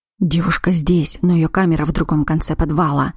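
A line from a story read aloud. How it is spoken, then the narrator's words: Wary vampire whisper. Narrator (Russian): шепнул вампир, опасливо озираясь по сторонам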